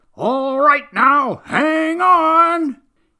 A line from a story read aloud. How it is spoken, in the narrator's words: called out